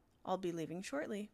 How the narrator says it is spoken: explained quietly

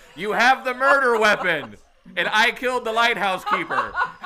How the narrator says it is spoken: Mendel yells back up the stairs

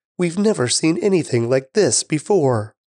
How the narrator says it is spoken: They were all amazed and praised God, exclaiming

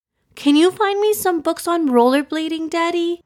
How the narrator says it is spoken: exclaimed

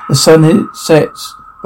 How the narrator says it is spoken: Russ sighs, soft thundering

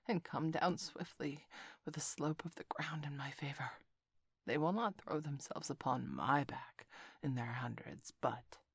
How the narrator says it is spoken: Kaa whispered

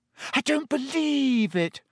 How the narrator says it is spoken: Hermione wailed

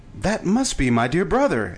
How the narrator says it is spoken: exclaimed Shaggy

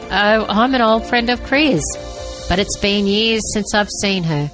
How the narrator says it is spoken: the man chuckled

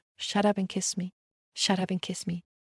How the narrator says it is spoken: Before I can control it, I've already whispered

